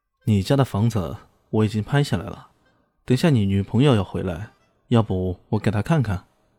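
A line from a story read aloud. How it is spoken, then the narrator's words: Cheerful, laughing. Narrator (Chinese): 李炫笑呵呵的说道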